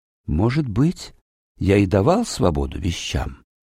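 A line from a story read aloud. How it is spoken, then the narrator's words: Quiet answer. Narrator (Russian): тихо ответил странник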